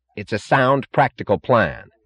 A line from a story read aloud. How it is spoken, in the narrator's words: snapped James Taggart unexpectedly, with an angry edge of sudden animation in his voice